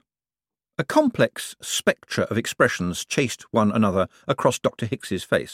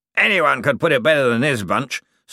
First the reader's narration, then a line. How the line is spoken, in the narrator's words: snapped Flead